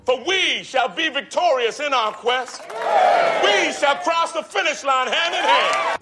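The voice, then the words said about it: Loose evocation of Martin Luther King Jr. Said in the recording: “David's not doing an impersonation. It's more of an evocation, which means he's just suggesting this very familiar voice ... Listen to how much of his vocal range Martin Luther King Jr. actually uses ... Not quite the same.”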